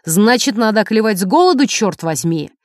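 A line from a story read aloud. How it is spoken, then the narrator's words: Husband's shout. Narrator (Russian): Муж крикнул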